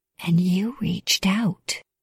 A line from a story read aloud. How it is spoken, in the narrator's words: I whispered